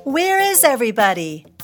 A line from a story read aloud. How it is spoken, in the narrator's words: Tina called out